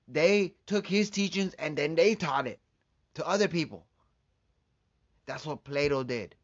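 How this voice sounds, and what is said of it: Speaker's own accent. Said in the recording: “Forgive me my accent.”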